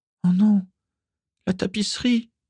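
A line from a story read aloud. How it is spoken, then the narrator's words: Groaned. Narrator (French): gémit-il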